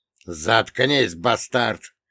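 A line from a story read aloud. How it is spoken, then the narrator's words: Barked. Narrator (Russian): гаркнул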